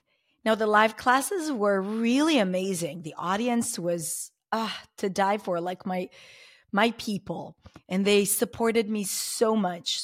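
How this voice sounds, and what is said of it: Slightly hoarse voice. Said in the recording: “You can hear that I'm a bit hoarse, and that's because I started coughing that day”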